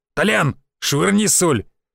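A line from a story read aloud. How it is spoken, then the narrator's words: Loud bark. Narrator (Russian): мужик гаркнул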